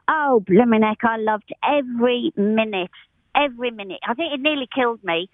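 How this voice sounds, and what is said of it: Strong regional accent. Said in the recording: “you could have cut my accent with a knife. It's bad enough now”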